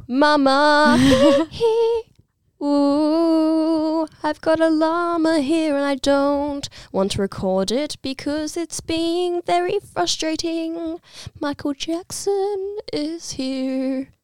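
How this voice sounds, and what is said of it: High-pitched squeaky imitated singing voice. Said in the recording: “You're very good at imitating his little little high-pitched squeaks.”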